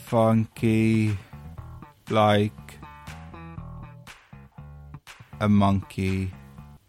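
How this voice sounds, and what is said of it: Slow drawn-out sloth character voice. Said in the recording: “Can you do it like a slot from Zootopia? ... Is that a good impression of him? ... Pretty much what they do in Zootopia, yeah.”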